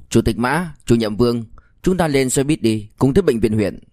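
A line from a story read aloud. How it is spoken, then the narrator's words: Loud. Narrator (Vietnamese): Liêu Kinh Vũ lập tức lớn tiếng nói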